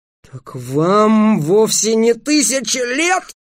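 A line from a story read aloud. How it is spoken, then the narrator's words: Moaning. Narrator (Russian): простонался Дерек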